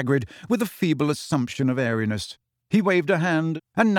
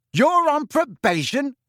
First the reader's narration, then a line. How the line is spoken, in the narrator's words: said Ron very loudly, so that many students passing looked around curiously